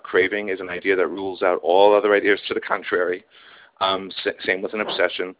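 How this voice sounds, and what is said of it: Hoarse voice. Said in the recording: “my voice is hoarse ... because I was out all night with a bunch of people”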